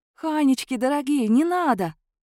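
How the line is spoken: Tender, affectionate. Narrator (Russian): проговорила я ласково

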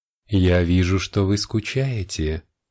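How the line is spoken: Charming velvety voice. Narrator (Russian): произнесла она своим чарующим бархатным голосом

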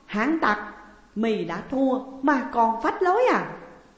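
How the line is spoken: Loud laughing. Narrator (Vietnamese): Chương Hàm cười lớn nói

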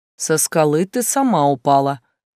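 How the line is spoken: Unsympathetic snort. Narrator (Russian): безо всякого сожаления хмыкнул стихийник

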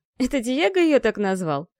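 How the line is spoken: Giggling. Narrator (Russian): хихикнул Мафей

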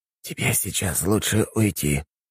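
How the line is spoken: Whisper. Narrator (Russian): прошептал мастеру Эрхард

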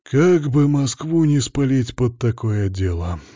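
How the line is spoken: Sighing. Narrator (Russian): Вздохнул боярин

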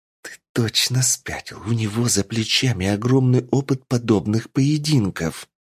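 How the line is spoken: Hiss. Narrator (Russian): прошипела Женя

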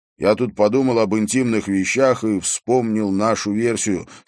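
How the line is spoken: Plain. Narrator (Russian): сказал Харри

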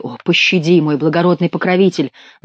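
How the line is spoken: Pleading, bellowing like bull. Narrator (Russian): взмолился монах и не заплакал, а заревел, как бык

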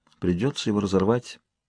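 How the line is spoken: Mutter. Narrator (Russian): пробормотала она

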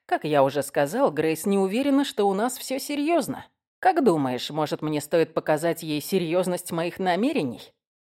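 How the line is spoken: Growling. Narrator (Russian): зарычала

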